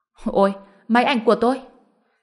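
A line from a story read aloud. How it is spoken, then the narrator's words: Cry out. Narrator (Vietnamese): Tên đó la lên một tiếng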